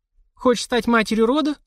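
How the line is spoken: Mother laughing. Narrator (Russian): засмеялась мама

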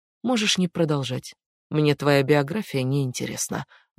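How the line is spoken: Sighed. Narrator (Russian): вздохнула Дженни

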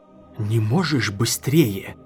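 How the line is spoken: Impatient hiss. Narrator (Russian): прошипел он в 12-й раз

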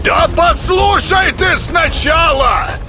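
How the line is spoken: Straining bellow. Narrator (Russian): заорал леший, пытаясь удержать леопарда

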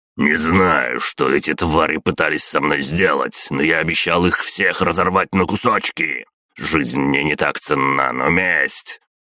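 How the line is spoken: Growling. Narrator (Russian): он прорычал

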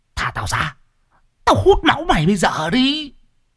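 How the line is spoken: Woman's hiss. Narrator (Vietnamese): Miệng của bà ấy rít lên

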